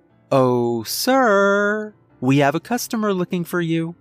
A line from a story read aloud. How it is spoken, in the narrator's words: I said happily